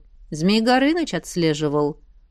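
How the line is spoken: Dry. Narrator (Russian): сухо сказал он

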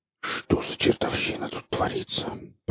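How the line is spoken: Whispered. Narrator (Russian): прошептал Борланд

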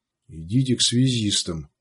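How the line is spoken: Quiet command. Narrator (Russian): распорядился Сварог тихо

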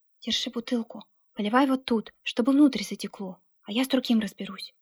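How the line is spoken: Whispered. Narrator (Russian): сказал шепотом Алексей

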